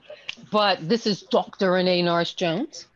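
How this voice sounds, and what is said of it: Poor put-on British accent. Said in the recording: “That's my very probably poor British accent”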